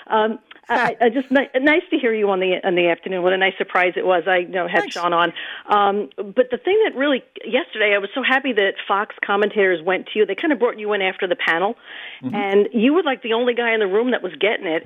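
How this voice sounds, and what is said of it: Accented, fast-talking voice. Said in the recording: “do you have an accent? ... I do, and I talk fast”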